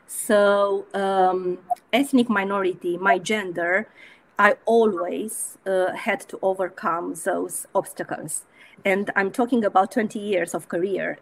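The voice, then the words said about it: Non-native English accent. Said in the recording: “my accent was uh, not a, a, native accent.”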